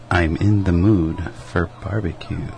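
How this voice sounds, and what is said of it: Whispering. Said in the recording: “It's hard when you're whispering. ... I'm supposed to whisper”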